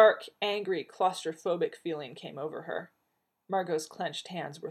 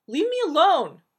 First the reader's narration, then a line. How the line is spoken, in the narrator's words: she shrieked